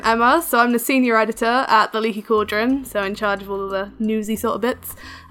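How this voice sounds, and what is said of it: English accent. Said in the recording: “I'm happy to have an English voice onto the show ... having my accent”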